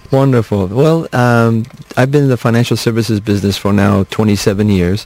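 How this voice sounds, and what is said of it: Slight accent, not Kentucky. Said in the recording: “You have a bit of an accent ... you don't have a Kentucky accent”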